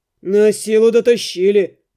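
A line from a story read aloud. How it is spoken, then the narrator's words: Grumbling. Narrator (Russian): проворчал Рыжебородый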